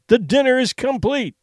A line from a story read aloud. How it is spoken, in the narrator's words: he cried